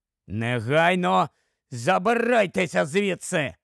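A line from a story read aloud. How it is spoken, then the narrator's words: Growling waiter. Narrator (Ukrainian): прогарчав офіціант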